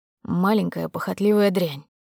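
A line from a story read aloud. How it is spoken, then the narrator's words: Hissed through teeth, close. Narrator (Russian): процедил у нее над ушком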